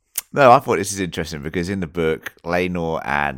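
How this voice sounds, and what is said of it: Usual voice. Nothing is said of it.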